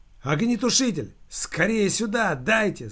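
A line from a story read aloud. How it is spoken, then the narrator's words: Full-throated shout. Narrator (Russian): закричал Евграф во всю глотку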